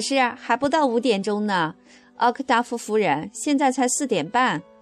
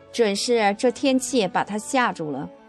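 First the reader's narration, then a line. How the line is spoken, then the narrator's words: Sighing. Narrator (Chinese): 我的姨妈叹息说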